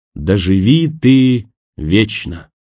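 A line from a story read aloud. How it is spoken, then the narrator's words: Solemn. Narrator (Russian): Кемпер торжественно произнесла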